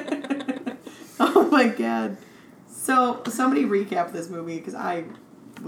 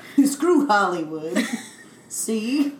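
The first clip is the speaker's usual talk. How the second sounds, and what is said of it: Put-on 1940s New York accent. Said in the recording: “your New York 1940s accent”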